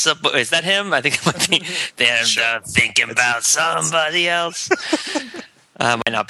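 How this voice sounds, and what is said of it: Usual voice. Nothing is said of it.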